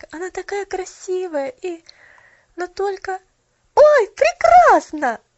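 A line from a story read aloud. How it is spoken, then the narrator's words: Joyful exclamation. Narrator (Russian): воскликнула она радостно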